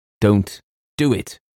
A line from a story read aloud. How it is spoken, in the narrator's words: cried James with extraordinary vehemence